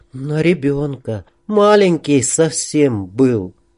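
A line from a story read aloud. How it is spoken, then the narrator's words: Barely audible remark. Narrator (Russian): Дина еле слышно заметила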